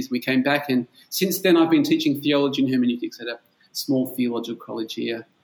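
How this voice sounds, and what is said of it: Australian accent. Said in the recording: “you have a different accent from me ... I'm from Perth in Australia”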